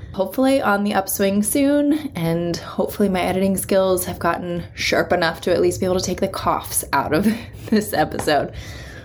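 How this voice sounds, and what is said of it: Rough, sick-sounding voice. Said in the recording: “I apologize for the state of my voice ... my voice is a little bit on the fritz today”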